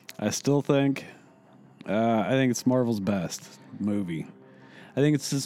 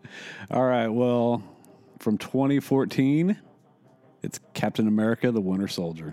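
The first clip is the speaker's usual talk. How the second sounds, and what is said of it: Announcer voice. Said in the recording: “You have the announcer voice.”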